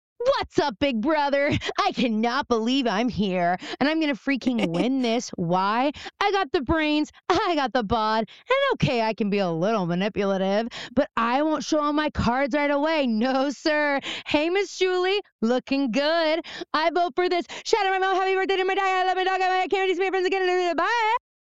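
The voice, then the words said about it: Exaggerated reality-show contestant voice. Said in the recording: “That is my impression of a Big Brother diary room. Like, it's a medley.”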